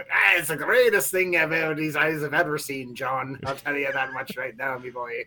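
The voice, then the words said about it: Exaggerated put-on Irish accent. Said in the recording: “I didn't make him sound like a crazy Irishman ... That Irish accent”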